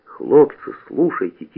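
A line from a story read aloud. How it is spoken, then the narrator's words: Quiet call. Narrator (Russian): тихо подозвал Насоська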